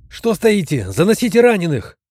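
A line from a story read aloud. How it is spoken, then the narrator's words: Urgent shout. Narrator (Russian): крикнул я, почувствовав, как круглая метровая рамка портала начинает сужаться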